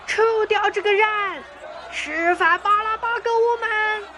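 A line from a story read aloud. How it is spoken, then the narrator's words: Crowd shouting together. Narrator (Chinese): 众人却一起喊着说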